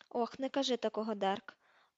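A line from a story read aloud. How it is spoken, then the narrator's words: Muttered. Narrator (Ukrainian): пробурмотів Тед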